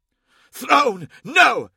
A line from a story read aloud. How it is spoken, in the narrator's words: he hissed